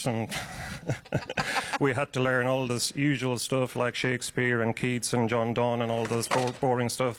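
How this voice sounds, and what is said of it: Irish accent. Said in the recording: “there is an accent there. How does your Irish background ... having an Irish accent”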